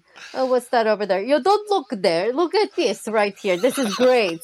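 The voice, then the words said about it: Put-on Polish accent. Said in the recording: “that's a good accent ... it was a horrible accent because I can't do it. I think I did more like Russian”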